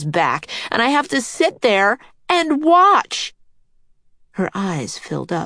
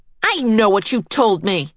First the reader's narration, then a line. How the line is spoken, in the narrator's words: Karen snapped, and she burst into tears